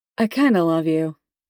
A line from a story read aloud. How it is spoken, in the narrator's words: Tim says, red in the face and still clutching his belly from laughing so hard